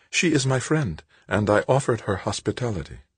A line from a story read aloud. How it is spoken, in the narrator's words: smiled sweetly as she answered